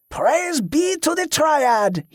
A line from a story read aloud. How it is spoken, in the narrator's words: he cried